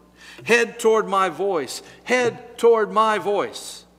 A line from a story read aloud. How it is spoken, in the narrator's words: They cried out